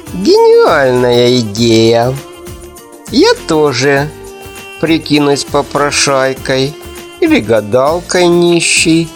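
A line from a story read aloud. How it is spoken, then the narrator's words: Plain. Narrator (Russian): сказала Валиде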